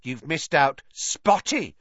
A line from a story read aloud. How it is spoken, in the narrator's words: Peeves hissed in her ear